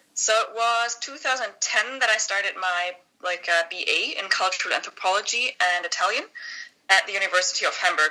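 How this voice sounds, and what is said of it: German accent. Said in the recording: “as you may hear from my accent, I was born and raised in Germany”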